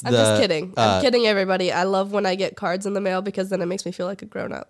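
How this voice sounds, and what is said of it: Creaky vocal fry voice. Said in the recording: “You think my vocal fry is going to annoy people?”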